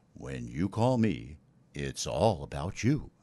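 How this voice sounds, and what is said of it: Deep smooth radio announcer voice. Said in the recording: “I'm going to go use my radio voice.”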